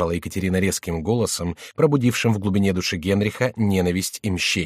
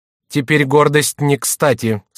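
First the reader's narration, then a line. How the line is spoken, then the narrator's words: Stern. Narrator (Russian): строго произнесла Екатерина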